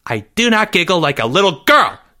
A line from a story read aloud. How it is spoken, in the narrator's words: Jeffrey yelled